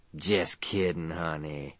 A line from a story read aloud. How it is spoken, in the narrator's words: she purred